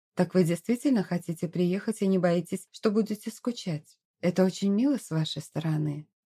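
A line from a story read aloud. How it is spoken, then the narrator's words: Even voice. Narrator (Russian): говорила леди Этельрида своим ровным голосом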